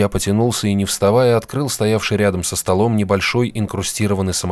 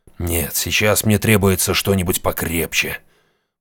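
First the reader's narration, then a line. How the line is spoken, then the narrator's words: Mutter. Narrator (Russian): Пробормотал он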